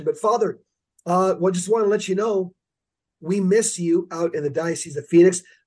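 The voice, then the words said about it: Hoarse, congested voice. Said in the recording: “I've got a sore throat. ... with the stuffy nose”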